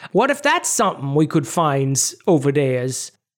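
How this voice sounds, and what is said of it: Medieval English peasant impression. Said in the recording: “This is my impression of medieval English peasants.”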